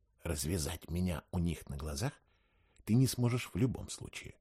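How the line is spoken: Whispered reply. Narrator (Russian): прошептал я в ответ

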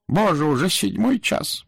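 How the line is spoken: Groan. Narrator (Russian): простонал он

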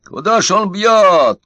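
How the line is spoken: Shouted. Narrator (Russian): кричал Удалов

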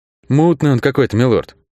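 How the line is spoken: Uncertain. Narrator (Russian): неуверенно произнес тот

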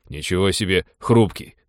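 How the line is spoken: Snort. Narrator (Russian): хмыкнул Тодор

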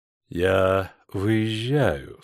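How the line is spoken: Quiet. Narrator (Russian): сказал он тихо

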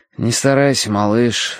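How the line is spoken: Sighing. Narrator (Russian): вздохнул я

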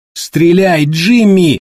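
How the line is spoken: Trembling falsetto shout. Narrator (Russian): выкрикнул Дэйв, фальцетом с дрожью в голосе

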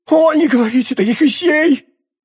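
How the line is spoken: Crying out, sobbing. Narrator (Russian): вскричала прокурорша, раздражаясь рыданиями

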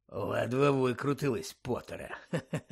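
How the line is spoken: Muttered. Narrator (Ukrainian): пробурмотів він

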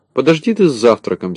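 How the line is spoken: Angry reply. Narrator (Russian): сердито ответил Незнайка

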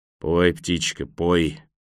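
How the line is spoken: Gloomy mutter. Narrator (Russian): мрачно пробормотал партизан

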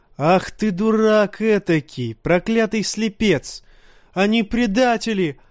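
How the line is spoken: Yelling from below. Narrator (Russian): вопил Джоффри снизу

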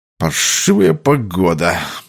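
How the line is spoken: Grumbled. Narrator (Russian): проворчал он

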